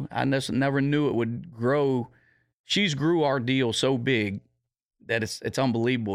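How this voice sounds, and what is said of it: Rural country accent. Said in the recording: “with my accent, I'm from the country”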